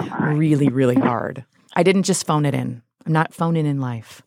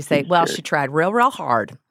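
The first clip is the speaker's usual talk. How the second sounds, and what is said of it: Put-on Utah accent. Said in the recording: “if you say it in Utah accent”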